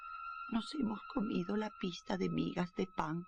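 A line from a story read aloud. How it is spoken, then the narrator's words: Sad singing. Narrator (Spanish): cantaban tristemente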